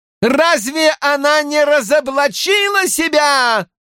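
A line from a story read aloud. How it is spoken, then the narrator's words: Loud drowning exclamation. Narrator (Russian): громко вскричала Элайда, заглушая попытки Эгвин что-то сказать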